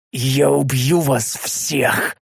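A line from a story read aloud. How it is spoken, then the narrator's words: Hoarse roar. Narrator (Russian): Хрипло проревел я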